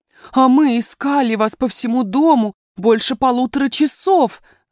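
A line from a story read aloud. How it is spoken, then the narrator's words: Exclaimed. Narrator (Russian): воскликнула няня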